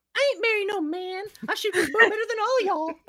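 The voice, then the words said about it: Impression of a cartoon princess. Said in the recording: “Meredith from Brave ... A great impression there.”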